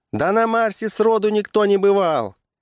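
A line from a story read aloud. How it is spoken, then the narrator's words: Shout from crowd. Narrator (Russian): выкрикнул какой-то зевака из собравшейся толпы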